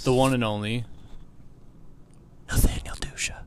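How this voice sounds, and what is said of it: Whispered introduction. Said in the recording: “That was a nice whisper. I've never been whisper introduced”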